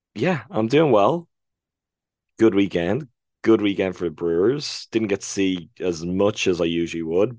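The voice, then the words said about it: Voice in poor condition. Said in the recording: “My voice is not doing so well.”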